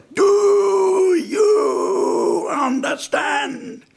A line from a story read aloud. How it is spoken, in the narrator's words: He'd repeat those words, but at the top of his voice